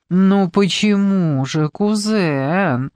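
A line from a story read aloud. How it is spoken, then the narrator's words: Affected drawl. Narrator (Russian): Жемана протянула женщина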